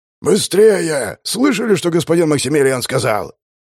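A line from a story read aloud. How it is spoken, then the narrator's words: Loud bark. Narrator (Russian): гаркнул Даркали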